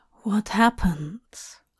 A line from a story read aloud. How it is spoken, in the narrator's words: Hop murmured to Dream's ear